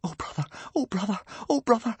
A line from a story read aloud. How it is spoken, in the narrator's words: whispered Hiccup